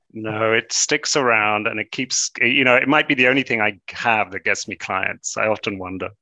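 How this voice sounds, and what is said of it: British accent. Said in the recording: “that British accent hasn't disappeared with your time in New York”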